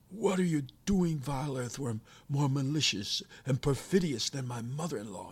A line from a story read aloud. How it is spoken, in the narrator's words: he exclaimed